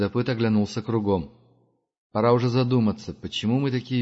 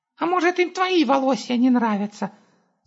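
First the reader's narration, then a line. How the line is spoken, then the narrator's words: Squeaking. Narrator (Russian): зализывая царапину, пропищал Густав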